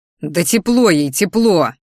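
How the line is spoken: Irritated roar. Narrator (Russian): взревел я, желая чем-нибудь залепить другу, так как его ухаживания и подкаты были совершенно не вовремя

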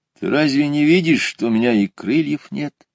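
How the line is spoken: Sad hare answering. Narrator (Russian): грустно ответил заяц

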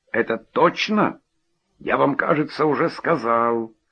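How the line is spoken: Rude interruption, host. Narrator (Russian): грубо оборвал хозяин

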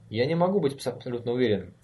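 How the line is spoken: Irritated answer. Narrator (Russian): раздраженно ответил Конрад

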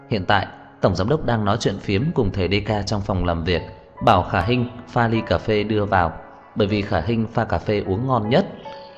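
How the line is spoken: Smiling. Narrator (Vietnamese): thư ký văn phòng mỉm cười nói với Tiêu Đồng

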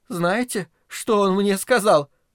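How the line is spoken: Sobbing. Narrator (Russian): прорыдала Грета

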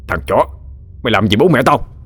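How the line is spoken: Shouting through gritted teeth. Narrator (Vietnamese): Gã Trường nghiến răng quát

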